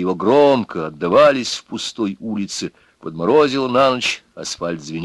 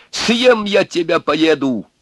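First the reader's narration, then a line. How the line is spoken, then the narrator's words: Shouting into the night. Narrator (Russian): закричал он в тишину, в ночь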